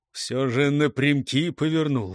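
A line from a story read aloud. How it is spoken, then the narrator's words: Grumbling. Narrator (Russian): ворчал Неуступ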